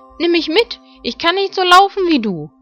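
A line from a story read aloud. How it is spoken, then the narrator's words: Frog calling out. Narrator (German): rief der Frosch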